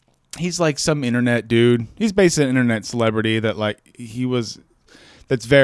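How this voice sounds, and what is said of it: Usual voice. Nothing is said of it.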